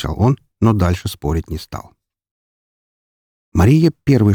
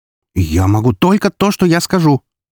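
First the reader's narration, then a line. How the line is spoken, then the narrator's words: Sharp interruption. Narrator (Russian): резко перебила она меня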